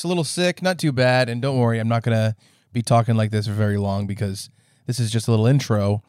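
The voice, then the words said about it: Hoarse, sick-sounding voice. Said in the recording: “as you can tell from my voice, I'm a little hoarse,”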